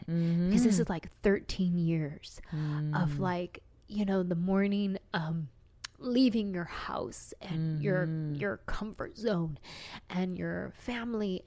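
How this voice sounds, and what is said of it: Emotional voice. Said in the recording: “I'm getting emotional right now thinking about it”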